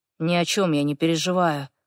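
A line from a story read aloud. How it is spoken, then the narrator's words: Mumbling. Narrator (Russian): бормочет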